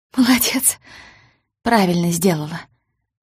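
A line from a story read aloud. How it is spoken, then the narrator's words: Almost calm voice. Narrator (Russian): Почти спокойным голосом произнесла гостья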